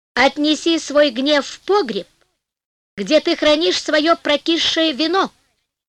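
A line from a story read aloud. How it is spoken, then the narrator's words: Calm. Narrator (Russian): сказал он спокойно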